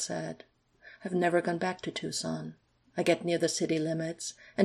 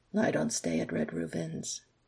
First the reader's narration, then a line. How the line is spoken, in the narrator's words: Alex said quietly